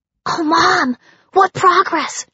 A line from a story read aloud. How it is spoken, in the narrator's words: she panted